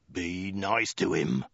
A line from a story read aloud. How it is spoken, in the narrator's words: the Mongol snarled